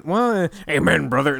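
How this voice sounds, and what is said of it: Imitates another person's voice. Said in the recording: “your best Hulk Hogan impression”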